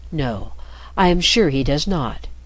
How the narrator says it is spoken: said softly

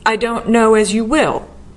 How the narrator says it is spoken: the girl retorted fiercely

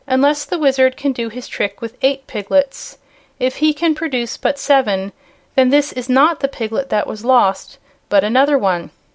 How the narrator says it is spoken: cried the kitten, in a sharp voice

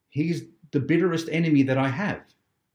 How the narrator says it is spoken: exclaimed the old preacher

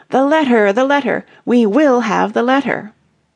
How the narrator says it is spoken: from all sides came cries of

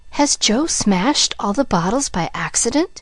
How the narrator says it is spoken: he whispered

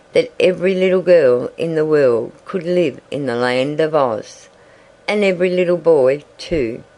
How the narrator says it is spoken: continued Betsy, dreamily

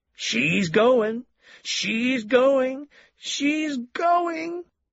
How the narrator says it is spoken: the milkman cried ecstatically

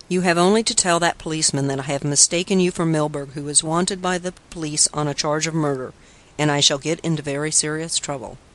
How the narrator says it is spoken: said Ling Chu calmly

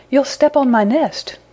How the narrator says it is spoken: he cried

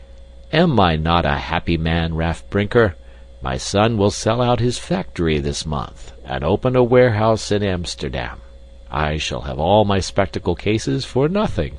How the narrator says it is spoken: was laughing as he said

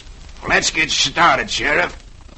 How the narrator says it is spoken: Sloat snarls

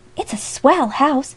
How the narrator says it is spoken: exclaimed one of the girls delightedly

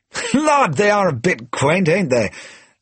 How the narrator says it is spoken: laughed Sir Percy jovially

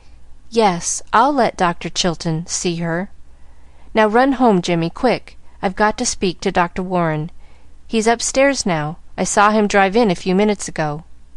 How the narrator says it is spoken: she said brokenly

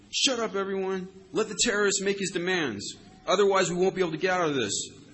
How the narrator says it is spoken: the wiser ones in the crowd screamed

